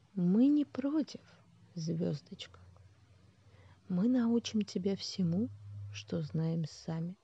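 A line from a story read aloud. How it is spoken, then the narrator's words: Quiet calm voice. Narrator (Russian): тихим и спокойным голосом промолвил лидер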